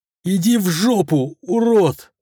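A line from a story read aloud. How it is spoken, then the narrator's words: Howling girl. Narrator (Russian): взвыла девушка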